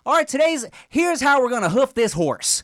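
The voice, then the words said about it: Put-on country accent. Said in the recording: “I don't know why I'm doing a country. What's the Montana accent?”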